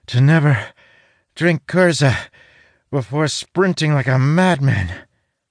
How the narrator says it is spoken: Talon says between gasping breaths

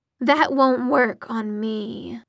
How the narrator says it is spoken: said the demon in a bored voice

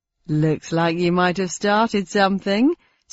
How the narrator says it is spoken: said the funster with a chuckle

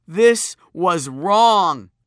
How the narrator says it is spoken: he screeched

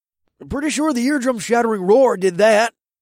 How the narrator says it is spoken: Paul grumbled

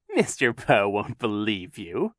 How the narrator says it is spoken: Captain Sham said, chuckling

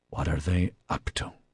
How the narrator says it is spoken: Wilson whispered

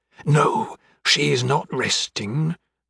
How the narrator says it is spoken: answered, wringing her hands and lowering her voice to a whisper

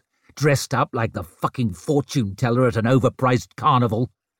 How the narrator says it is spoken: he snarled

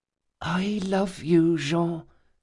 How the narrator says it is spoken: she whispered at last

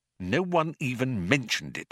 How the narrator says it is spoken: muttered Arthur irritably

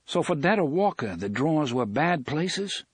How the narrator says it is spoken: asked

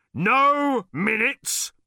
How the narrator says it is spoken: boomed the bodyguard

